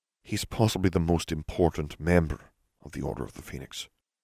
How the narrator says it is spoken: Dumbledore murmured

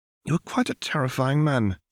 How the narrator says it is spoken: she sighed

